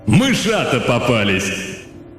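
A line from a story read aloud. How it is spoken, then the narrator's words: Booming voice overhead. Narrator (Russian): над самой головой прогремело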